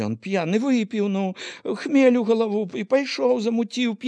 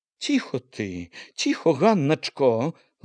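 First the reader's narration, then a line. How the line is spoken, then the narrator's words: Gentle, soothing. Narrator (Belarusian): лагодна сказала мачыха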